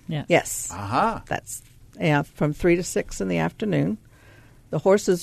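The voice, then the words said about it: Southern American accent. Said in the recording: “I'm from the South, and you'll hear that in my voice”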